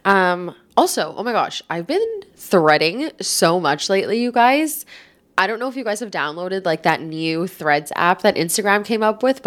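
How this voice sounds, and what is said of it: Stuffy, congested voice from a cold. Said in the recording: “I think I have a cold, so if I sound a little stuffed up ... if I sound a little stuffy”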